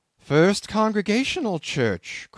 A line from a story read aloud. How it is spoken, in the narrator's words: cried Bildad